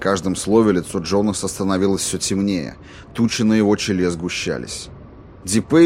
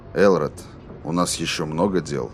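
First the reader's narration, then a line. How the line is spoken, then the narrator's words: Quiet. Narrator (Russian): говорил Рейнольдс тихо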